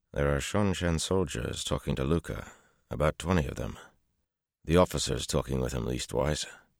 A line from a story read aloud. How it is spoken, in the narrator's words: Petra said quietly